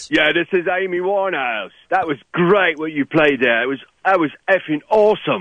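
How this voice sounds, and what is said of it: Man's voice posing as a woman. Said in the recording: “you sound like a dude.”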